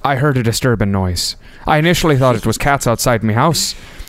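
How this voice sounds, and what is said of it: Attempted Irish accent. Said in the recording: “going to read this with an accent. ... Your Irish accent just tickles my funny bone. I should say your attempt at an Irish accent. ... I've had to do Irish so many times. It should be way better.”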